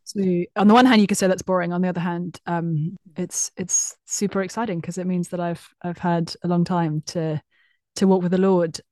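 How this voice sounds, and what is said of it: British English accent. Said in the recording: “I grew up in the UK, as many will discern from my dulcet tones... English accents”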